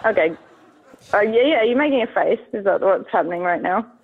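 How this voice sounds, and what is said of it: Mild Australian accent, laid back. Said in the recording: “Tasmania ... super cool, sounds laid back, and has like all the charm of the British ... I'm glad that you're enjoying my accent. I don't think mine's very strong ... No, it's not that strong.”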